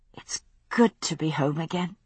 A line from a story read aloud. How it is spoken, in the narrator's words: I said softly